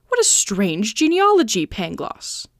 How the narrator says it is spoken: exclaimed Candide

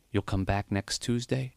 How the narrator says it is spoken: he whispered

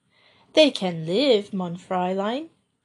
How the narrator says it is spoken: replied Marie dryly

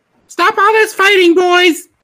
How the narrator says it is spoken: a lady yelling

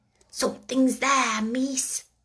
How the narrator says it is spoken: she whispered

